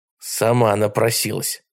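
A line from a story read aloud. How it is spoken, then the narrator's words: Muttered. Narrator (Russian): пробормотал он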